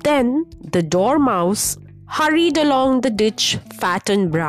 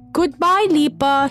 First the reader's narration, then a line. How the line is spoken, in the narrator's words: cried